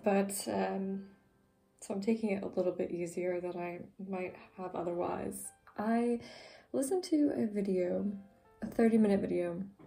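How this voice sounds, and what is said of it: Strained, fading voice. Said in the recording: “losing my voice today because I spoke a lot yesterday, so my voice is a little bit unenthusiastic”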